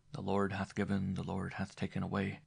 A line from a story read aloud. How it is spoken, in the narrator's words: mournfully